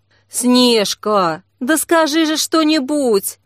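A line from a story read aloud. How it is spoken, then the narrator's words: Pleading. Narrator (Russian): взмолилась Ксения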